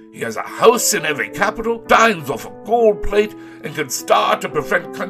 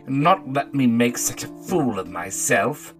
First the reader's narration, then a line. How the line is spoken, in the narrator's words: said Huey sulkily